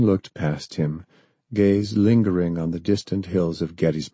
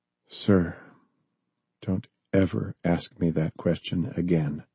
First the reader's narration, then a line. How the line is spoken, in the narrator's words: John whispered